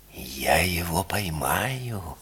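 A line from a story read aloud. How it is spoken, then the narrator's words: Solemn, self-important. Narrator (Russian): торжественно и важно сказал он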